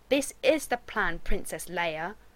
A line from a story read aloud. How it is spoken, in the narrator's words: Rodney sneered